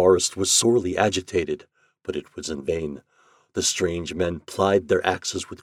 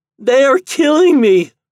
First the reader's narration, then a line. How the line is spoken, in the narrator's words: cried the tree